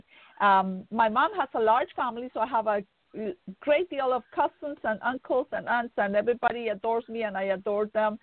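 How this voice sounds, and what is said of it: Colombian-accented English. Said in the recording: “I am very Colombian. My accent has never left me.”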